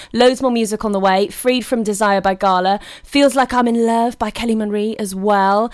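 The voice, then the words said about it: Slightly croaky voice. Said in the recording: “I've got a bit of a frog in my throat today ... I'm just getting over a cold”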